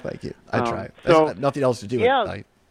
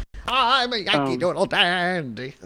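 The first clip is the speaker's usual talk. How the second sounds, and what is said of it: Imitates another person's singing voice. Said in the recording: “Your Ethel Merman impression is better than mine.”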